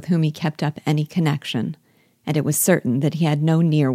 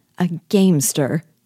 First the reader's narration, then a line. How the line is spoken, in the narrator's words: she cried